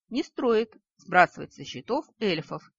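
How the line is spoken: Unexpectedly cold reply. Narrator (Russian): неожиданно холодно отозвался Нори

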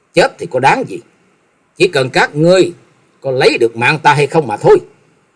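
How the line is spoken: Angry, through gritted teeth. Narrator (Vietnamese): Trần Lâm tức giận nghiến răng nói

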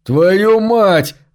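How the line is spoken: Furious yell. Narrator (Russian): заорал кочевник

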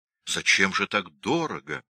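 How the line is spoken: Gentle, kind. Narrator (Russian): ласково сказал Пирогов

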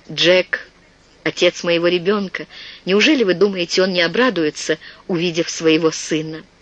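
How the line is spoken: Quiet, tearful. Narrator (Russian): Слезы навернулись на глаза, и она тихо произнесла

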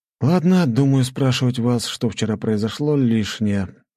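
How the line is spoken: Sighing. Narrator (Russian): вздохнул я

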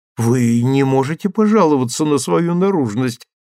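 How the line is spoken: Exclaimed. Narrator (Russian): воскликнула Луиза

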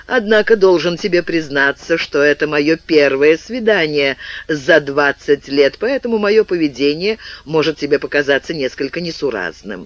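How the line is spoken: Added with sudden laugh. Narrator (Russian): Он внезапно рассмеявшись, добавил

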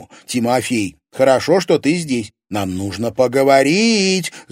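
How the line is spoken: Yelling over loud music. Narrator (Russian): завопила она, стараясь перекричать музыку

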